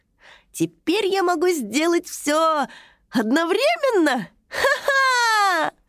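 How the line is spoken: Little dragon's excited exclamation. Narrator (Russian): Воскликнул маленький дракоша

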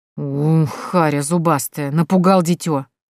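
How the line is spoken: Perfunctory grumble. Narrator (Russian): проворчала женщина больше для порядка и самоуспокоения

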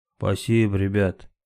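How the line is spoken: Almost sober voice. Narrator (Russian): почти трезвым голосом сказал

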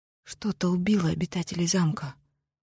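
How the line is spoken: Whispered. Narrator (Russian): прошептала Грей

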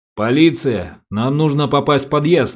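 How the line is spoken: Stern. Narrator (Russian): строго проговорил Самсонов

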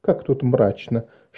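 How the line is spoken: Whisper. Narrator (Russian): шепнула Марис Эвану

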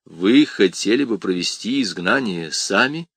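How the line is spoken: Plain. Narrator (Russian): спросил епископ

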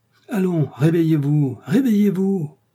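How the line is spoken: Butler shouting. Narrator (French): cria le majordome

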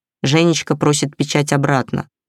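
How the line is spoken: Plain. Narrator (Russian): сказала Матильда

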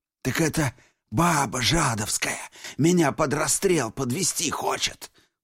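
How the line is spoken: Hoarse wheeze. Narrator (Russian): прохрипел Бешанов

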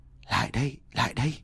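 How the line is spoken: Whispered call. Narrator (Vietnamese): tiếng gọi thì thầm

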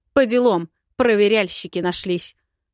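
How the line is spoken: Barked shout. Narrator (Russian): гаркнула

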